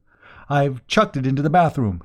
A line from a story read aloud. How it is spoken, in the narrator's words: he gasped